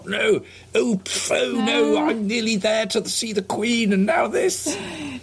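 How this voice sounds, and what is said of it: Imitates another person's voice. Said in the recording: “Your Boris impression gets better every week... It's not very good, is it?... Not the best.”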